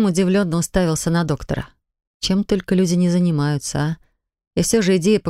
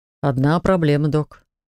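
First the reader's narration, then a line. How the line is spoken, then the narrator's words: Annoyed snort. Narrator (Russian): хмыкнул он с досадой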